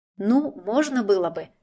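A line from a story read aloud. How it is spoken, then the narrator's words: Uncertain mumble under breath. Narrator (Russian): немного неуверенно промямлила себе под нос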